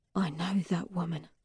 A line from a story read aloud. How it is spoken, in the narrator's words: I whisper